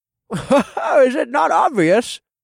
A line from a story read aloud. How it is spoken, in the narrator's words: Two chuckled